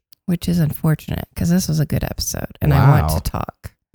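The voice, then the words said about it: Sick, abnormal-sounding voice. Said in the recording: “has a throat thing going on ... her voice sounds not normal, it's because her voice is under the weather”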